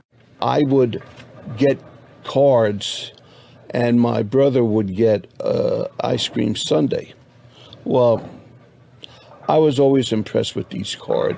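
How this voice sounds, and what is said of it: Thick Bronx accent. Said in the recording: “a voice still thick with his native Bronx accent”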